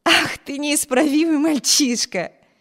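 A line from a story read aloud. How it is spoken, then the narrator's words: Laughing. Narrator (Russian): рассмеялась Эми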